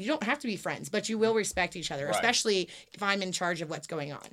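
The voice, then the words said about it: Stern teacher voice. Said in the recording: “teacher voice you were looking for? ... That was the teacher voice.”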